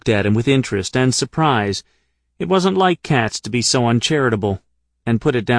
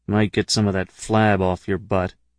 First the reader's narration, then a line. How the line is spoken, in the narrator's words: Katz muttered privately